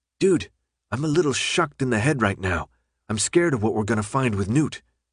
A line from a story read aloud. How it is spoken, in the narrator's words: Minho leaned into Thomas and half whispered